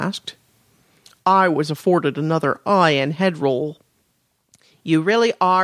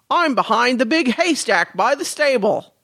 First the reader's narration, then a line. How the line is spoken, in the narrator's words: I shouted at the top of my lungs